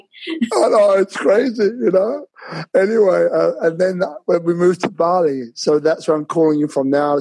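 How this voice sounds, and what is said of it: London accent mixed with others. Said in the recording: “my accent is originally from London, but it's been mixed with a whole bunch of different accents in there”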